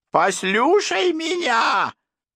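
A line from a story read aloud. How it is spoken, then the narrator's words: Yelled through teeth, comic impression. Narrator (Russian): Завопив сквозь нижние зубы, как салонный комик, изображающий Кёрка Дагласа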